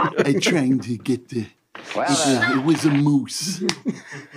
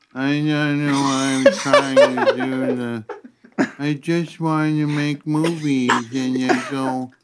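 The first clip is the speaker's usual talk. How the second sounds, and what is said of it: Impression of elderly Woody Allen. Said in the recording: “his new impression of Woody Allen is 80-year-old Woody Allen”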